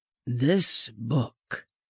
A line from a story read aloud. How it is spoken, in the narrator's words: said in a low voice, tenderly